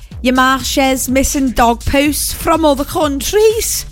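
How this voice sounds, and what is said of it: Put-on Scouse Liverpool accent. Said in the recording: “Scouse graffiti ... I'm so sorry for the accent. I've just offended everyone.”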